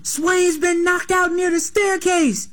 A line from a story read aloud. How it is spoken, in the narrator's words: some white kid yelling